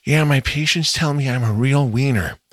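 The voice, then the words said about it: Imitates another person's voice. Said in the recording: “my strange Jennifer Coolidge impression”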